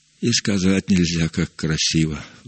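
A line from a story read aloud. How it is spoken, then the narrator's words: Sighing. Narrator (Russian): вздохнул Иероним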